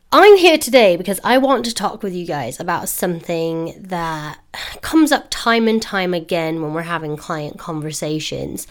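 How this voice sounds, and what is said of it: Voice sounds ill, not quite right. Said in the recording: “Forgive my voice, it's still not quite right. Evidently, I am going to be ill forever.”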